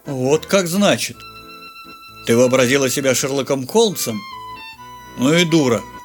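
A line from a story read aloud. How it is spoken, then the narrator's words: Rather tired verdict. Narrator (Russian): Довольно устало вынес он вердикт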